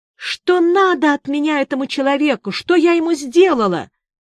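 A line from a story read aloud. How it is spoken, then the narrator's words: Sobbing. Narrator (Russian): И разрыдалась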